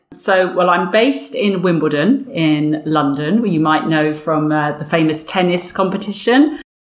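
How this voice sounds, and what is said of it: Berkshire English accent. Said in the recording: “this accent, I guess, is a Berkshire, a Windsor accent, now coming South London way”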